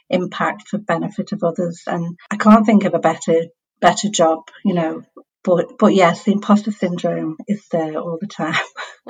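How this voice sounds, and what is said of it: Scottish accent. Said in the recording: “you definitely have got somewhere with a Scots accent.”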